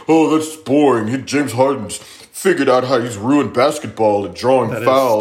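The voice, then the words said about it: Imitates another person's voice. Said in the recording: “that was my impersonation of Josh”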